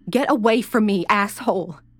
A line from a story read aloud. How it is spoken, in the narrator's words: screamed